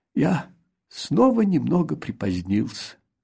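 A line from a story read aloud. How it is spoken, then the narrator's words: Sigh. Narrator (Russian): вздохнул он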